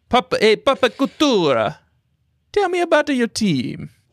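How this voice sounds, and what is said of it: Mario character impression. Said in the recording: “my Mario impersonation”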